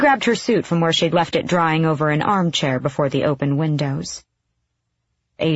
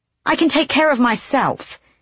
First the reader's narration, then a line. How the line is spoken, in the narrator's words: she snapped